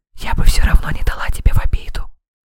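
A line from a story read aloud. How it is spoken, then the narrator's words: Whisper. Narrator (Russian): шепнула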